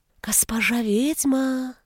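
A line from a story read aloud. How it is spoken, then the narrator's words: Insinuating whisper. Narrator (Russian): Вкрадчивым шепотом позвали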